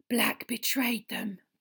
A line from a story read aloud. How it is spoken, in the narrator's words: breathed Madame Rosmerta